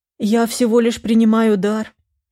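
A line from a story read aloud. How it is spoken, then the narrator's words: Gentle remark, headmistress. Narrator (Russian): не выдержала, наконец, директриса и мягко заметила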